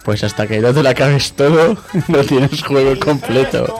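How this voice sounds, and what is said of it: Put-on father's voice. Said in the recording (Spanish): “Pon voz de padre ... Va a poner voz de padre. Pon tu voz de padre.”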